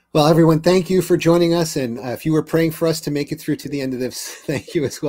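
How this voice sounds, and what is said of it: Hoarse, strained voice. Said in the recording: “I can feel myself losing my voice even more.”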